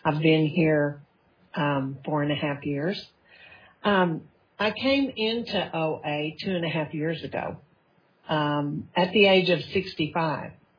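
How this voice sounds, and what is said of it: Texas accent. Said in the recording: “I'm sure you can tell from my accent, however, I'm from the Panhandle of Texas originally”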